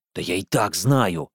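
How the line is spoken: Gruff mutter. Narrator (Russian): буркнул Ромыч

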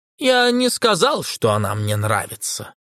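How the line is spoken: Cold reply. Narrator (Russian): холодно отвечал Фауглер

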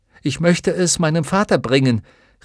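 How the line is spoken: Shouting over roar. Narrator (German): rief er in das Tosen

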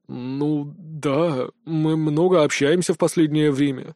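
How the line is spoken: Embarrassed mutter. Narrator (Russian): смутившись, пробормотал он

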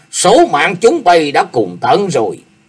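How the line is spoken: Roaring. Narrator (Vietnamese): Nhất chưởng đoạn hồn gầm lên

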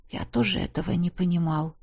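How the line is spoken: Uncle's whisper. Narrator (Russian): прошептал дядюшка

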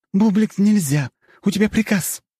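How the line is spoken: Exclaiming. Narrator (Russian): воскликнула Лебедева

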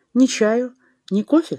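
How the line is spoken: Plain. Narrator (Russian): спросила она

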